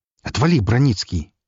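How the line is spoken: Sharp, impatient. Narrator (Russian): резко сказал я, уже окончательно теряя терпение

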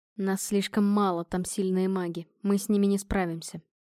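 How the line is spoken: Hollow, muffled voice. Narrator (Russian): глухим голосом проговорил Адриан

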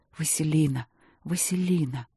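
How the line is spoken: Whispered. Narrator (Russian): Мариан шептал

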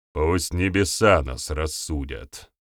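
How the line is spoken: Cold. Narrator (Russian): холодно произнес глава местного клуба Перуна

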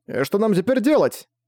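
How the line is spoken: Exclaimed. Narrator (Russian): воскликнул Марсель

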